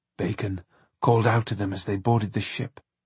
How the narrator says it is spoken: John said hoarsely

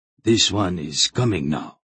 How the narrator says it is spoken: Hetar grunted

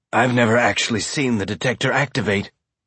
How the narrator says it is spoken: Miller said, his voice rough and faint after his coughing fit

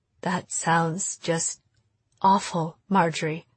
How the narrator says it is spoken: Mom said, her voice stuck in quicksand

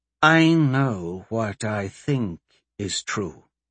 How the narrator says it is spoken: she said calmly

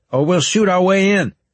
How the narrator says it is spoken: I shouted

